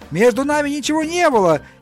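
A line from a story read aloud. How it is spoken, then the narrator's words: Shouted. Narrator (Russian): я закричал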